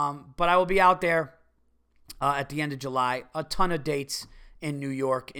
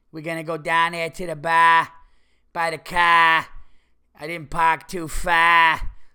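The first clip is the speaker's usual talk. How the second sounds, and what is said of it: Exaggerated Massachusetts accent. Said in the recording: “the Massachusetts area ... It's just such a fucking ugly, dumb accent.”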